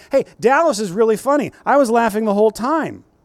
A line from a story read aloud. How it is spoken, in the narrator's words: some guy standing next to me blurted out